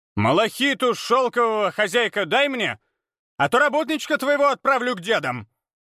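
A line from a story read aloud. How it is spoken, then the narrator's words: Shouting. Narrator (Russian): крикнул Абурицей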